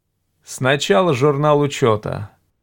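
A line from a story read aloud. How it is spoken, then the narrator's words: Gloomy. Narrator (Russian): мрачно сказал Гард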